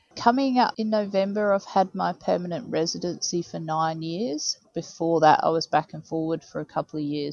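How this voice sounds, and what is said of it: Hybrid accent, little English accent. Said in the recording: “your lack of an English accent ... I think I'm a bit of a hybrid, I think, now”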